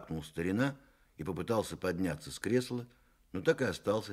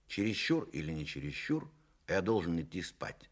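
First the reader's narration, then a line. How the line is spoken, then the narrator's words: Plain. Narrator (Russian): сказал Иван Николаевич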